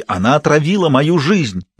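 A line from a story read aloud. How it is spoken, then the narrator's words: Shouting out. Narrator (Russian): выкрикнул он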